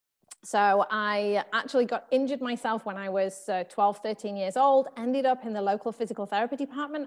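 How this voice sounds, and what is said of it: English accent. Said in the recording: “you can probably tell from my accent, I'm from England”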